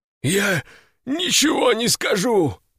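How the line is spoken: Hoarse rasp. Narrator (Russian): прохрипел он

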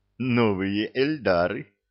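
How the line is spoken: Giggle. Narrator (Russian): хихикнул Санти

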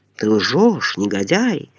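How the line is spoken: Groaning. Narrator (Russian): простонал Момус

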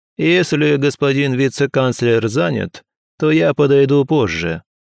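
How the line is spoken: Loud. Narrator (Russian): громко произнес

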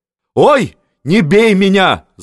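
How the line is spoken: Wailing scream. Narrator (Russian): завопил Гейн

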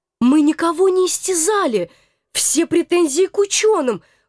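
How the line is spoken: Timid defense. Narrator (Russian): Робко попыталась оправдаться я

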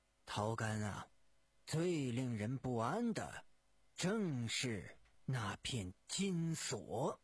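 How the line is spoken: Slow, somber. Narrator (Chinese): 狄仁杰脸色阴沉，半晌才缓缓地说道

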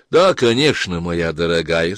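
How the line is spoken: Calm. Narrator (Russian): спокойно сказала леди Патриция

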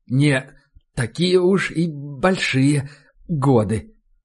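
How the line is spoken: Halting, strained reply. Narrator (Russian): запинаясь, будто от прилагаемых усилий, ответил он

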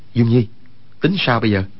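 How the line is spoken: Lowered voice. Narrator (Vietnamese): Quách Tĩnh hạ giọng nói

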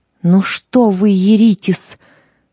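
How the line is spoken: Affectionate, to dogs. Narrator (Russian): Злата ласково обратилась к собакам

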